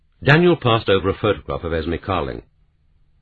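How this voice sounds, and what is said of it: Usual voice. Nothing is said of it.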